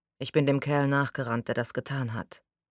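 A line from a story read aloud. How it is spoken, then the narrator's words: Flat, toneless. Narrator (German): sagte er tonlos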